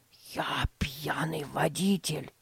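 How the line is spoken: Secretive whisper. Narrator (Russian): прошептал он, чтобы не услышали родители

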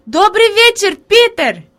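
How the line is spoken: Girl shouting. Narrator (Russian): Девочка крикнула

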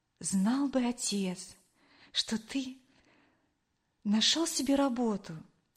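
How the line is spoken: Quiet. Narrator (Russian): тихо произнесла

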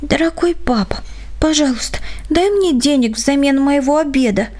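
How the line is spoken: Shy playful child's whisper. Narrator (Russian): Дочурка робко и одновременно шаловливо прошептала

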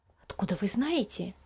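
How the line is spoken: Low-voiced question. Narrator (Russian): вполголоса спросила мама Лиза

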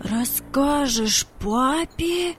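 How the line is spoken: Incredulous exclamation. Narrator (Russian): воскликнул Владик, не поверив своим ушам

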